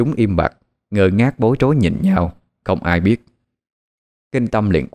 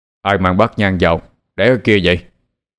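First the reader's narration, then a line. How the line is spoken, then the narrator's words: Loud shout. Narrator (Vietnamese): Sư liền quát lớn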